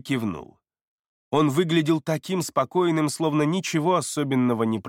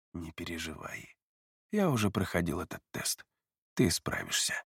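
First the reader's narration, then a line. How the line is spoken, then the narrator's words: Barely audible. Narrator (Russian): едва слышно произнес Кай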